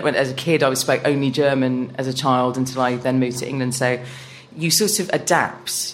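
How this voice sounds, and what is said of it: Posh English accent. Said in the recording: “I sound posh now, I know that, because you pointed that out”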